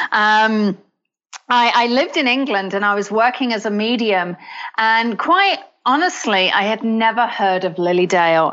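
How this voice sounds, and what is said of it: British accent. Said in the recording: “yes, this is a British accent.”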